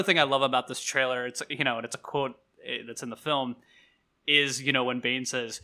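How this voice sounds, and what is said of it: Usual voice. Nothing is said of it.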